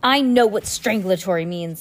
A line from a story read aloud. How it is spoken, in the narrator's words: Stefano shouted